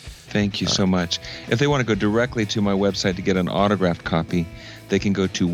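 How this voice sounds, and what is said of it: Usual voice. Nothing is said of it.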